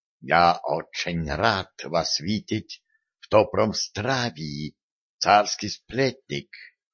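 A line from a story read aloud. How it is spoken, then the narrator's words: Mysterious whisper. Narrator (Russian): таинственно прошептал он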